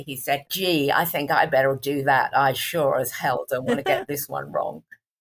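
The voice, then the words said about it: Put-on American accent. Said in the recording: “you have to excuse my American accent here”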